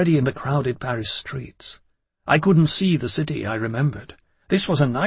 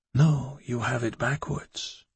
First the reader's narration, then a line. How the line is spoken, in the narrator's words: he said in the tenderest voice